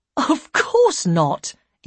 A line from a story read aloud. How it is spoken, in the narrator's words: Ian said sharply